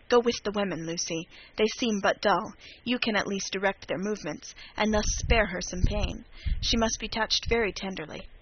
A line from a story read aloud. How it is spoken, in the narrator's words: whispered to me